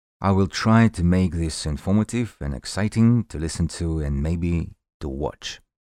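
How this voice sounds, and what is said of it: Very strong foreign accent. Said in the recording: “my strongest accent”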